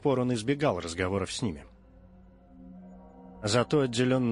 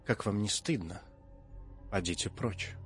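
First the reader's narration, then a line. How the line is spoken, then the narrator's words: Woman speaking quietly. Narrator (Russian): И эта женщина тихо сказала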